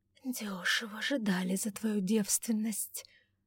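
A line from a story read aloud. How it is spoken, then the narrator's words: Hissed. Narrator (Russian): прошипела Августа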